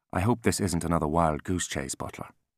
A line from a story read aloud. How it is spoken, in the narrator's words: he said, his voice soft and clipped